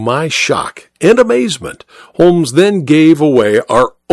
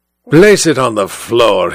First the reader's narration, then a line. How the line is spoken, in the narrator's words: he growled